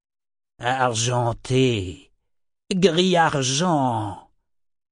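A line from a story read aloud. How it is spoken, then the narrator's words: Hissed. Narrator (French): siffla-t-il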